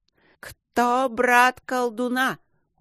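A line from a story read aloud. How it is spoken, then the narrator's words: Shouting. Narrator (Russian): заорал иномирянин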